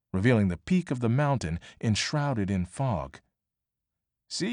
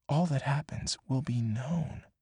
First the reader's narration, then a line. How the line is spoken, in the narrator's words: Annie whispered